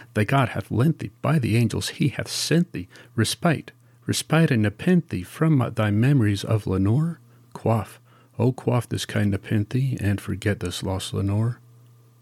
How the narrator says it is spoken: cried

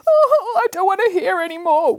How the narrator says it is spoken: wailed Boris

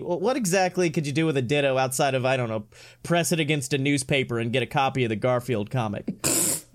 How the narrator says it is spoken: I chuckled once again

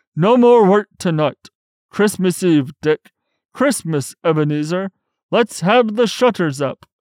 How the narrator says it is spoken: cried old Fezziwig

